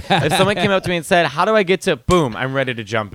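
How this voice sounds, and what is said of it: Slight Chicago accent. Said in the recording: “my accent is still Chicago. ... Little Chicago. Little bit ... Chicago.”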